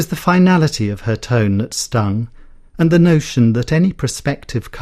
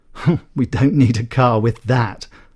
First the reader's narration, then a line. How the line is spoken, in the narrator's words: laughed my mother